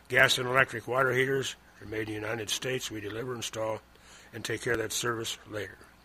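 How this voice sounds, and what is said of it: Rough-sounding voice. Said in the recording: “You sound a little rough. ... Yeah, I feel a little rough, too.”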